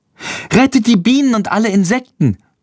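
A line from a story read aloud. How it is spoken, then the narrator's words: Calling out. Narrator (German): ruft Lilli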